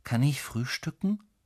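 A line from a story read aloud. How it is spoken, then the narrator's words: Plain question. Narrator (German): fragt er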